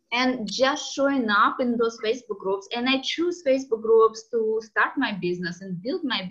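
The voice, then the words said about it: Strong foreign accent, non-native English. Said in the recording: “I have this strong accent ... you will hear that my English is not perfect”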